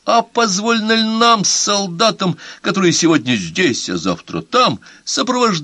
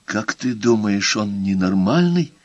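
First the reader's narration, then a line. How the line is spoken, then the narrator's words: Whisper. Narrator (Russian): прошептала Мэри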